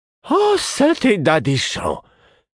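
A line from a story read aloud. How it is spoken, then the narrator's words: Exclaiming. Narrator (French): s'écria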